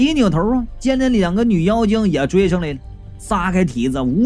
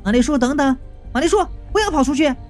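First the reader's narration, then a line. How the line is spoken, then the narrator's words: Calling out from behind. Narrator (Chinese): 云美就在背后喊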